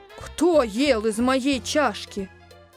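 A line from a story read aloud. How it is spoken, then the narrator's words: Moderate growl. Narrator (Russian): Медведица-мама зарычала не так громко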